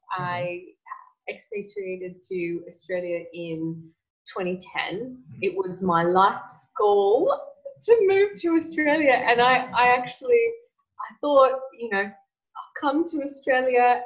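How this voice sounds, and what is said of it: American accent. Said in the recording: “the American accent”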